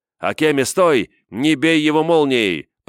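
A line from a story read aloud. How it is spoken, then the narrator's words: Shouted. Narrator (Russian): прокричал я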